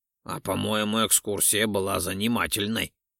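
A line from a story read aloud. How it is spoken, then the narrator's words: Snorting. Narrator (Russian): хмыкнул Ролдон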